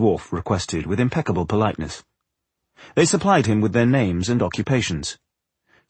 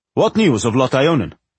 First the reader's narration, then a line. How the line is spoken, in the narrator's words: the man said sharply